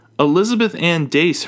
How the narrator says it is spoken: her father shouts behind her

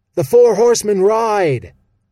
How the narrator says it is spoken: bellowed Stick, his voice breaking so loudly

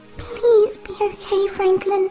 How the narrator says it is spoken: she whimpers

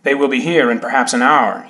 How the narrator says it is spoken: said

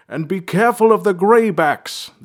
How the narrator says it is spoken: the king's voice boomed down the stairs

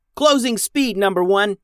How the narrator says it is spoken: yelled Max, who rarely used her inside voice

